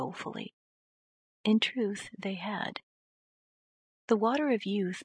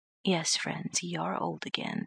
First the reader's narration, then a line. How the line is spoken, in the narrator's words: said Dr